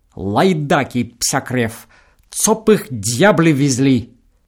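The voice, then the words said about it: Polish accent, venomous clipped syllables. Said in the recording (Russian): “Говорит он с польским акцентом, ядовито отчеканивая каждый слог”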